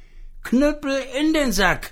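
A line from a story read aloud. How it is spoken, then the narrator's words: Calling out. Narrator (German): rief es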